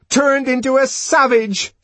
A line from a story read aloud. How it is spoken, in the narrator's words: she shouted